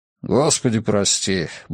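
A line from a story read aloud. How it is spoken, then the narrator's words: Muttering. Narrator (Russian): бормотал Роберт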